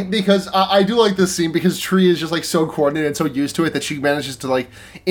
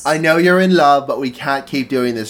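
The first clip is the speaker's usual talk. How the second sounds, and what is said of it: Put-on British accent impression. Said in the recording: “My British impression... a combination of Michael Caine and Salad Fingers”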